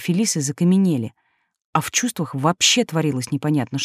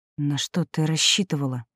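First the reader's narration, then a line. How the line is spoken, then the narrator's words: Through gritted teeth. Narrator (Russian): процедила она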